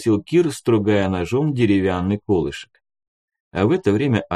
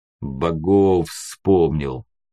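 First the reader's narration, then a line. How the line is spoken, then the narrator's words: Deep bass voice. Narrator (Russian): пробасил леший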